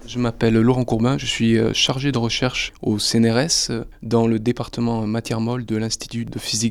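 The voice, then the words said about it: Slight Bordeaux French accent. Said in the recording (French): “un léger accent ... Bordelais. Du sud Gironde, pour être plus précis”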